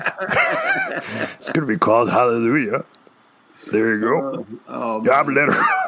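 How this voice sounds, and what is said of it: Imitates another person's voice. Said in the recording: “my Leonard Cohen impersonation ... me talking like this from Leonard Cohen”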